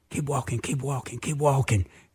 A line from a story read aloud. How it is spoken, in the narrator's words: all of a sudden I whispered